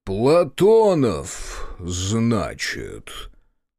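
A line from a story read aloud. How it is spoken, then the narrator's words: Low booming voice. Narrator (Russian): прогудел Терновский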